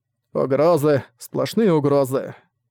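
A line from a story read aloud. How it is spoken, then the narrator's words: Said gloomily. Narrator (Russian): мрачно сказал Зак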